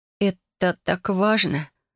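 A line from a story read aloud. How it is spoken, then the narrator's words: Moaning question. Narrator (Russian): спросила я и вновь застонала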